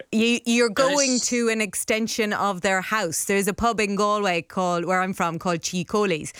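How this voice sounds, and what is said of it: Irish accent. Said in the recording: “if people are listening in and they hear my accent, they will know that in Ireland”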